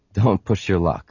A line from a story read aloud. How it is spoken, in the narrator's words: Han said dryly